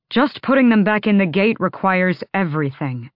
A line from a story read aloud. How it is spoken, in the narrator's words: he added tightly